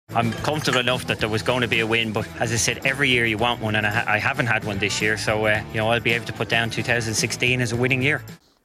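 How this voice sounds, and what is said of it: Irish accent. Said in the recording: “you never get tired of listening to that accent... from the Emerald Isle”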